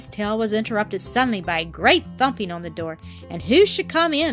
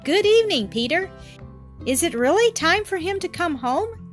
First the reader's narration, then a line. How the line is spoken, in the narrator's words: exclaimed Peter's grandmother